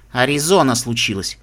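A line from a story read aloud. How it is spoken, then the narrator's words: Grumbling. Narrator (Russian): буркнула она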